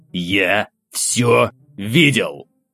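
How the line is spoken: Hiss at close range. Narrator (Russian): прошипел он мне в лицо

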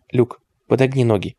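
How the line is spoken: Strikingly calm. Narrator (Russian): проговорила Клэр, причем настолько спокойно, что это даже поразило ее саму

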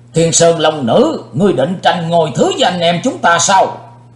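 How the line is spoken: Loud angry shout. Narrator (Vietnamese): Đại Ái Phương Sóc dĩ vô lượng tức giận quát to lên

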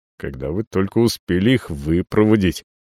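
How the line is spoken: Muttering. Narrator (Russian): бормочу

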